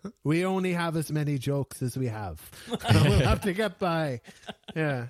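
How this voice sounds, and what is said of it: Usual voice. Nothing is said of it.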